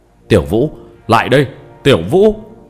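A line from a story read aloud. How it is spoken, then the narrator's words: Loud shout. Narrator (Vietnamese): Mộ Thanh Phong lớn tiếng quát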